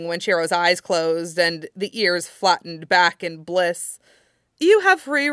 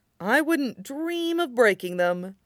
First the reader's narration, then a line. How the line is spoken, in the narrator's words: Matt drawled